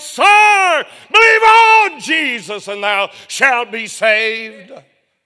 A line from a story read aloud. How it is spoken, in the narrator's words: he cried out in the night